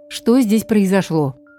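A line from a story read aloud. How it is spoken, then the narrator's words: Mother's stern question. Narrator (Russian): грозно спросила мама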